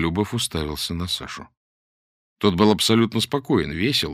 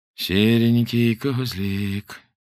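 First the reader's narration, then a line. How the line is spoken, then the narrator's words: Gloomy. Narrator (Russian): сказал мрачно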